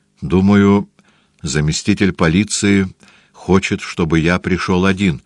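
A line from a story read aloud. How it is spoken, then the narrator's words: Plain. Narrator (Russian): ответил доктор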